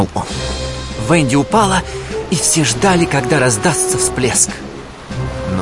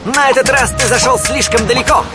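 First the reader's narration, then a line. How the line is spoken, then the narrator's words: Shouting. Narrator (Russian): закричал Питер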